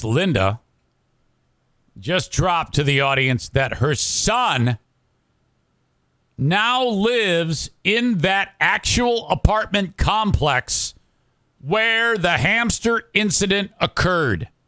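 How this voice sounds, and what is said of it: Exaggerated radio announcer voice. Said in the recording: “Radio voice”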